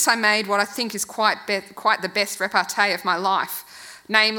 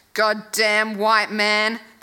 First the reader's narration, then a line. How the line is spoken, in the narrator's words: giving up at last, started growling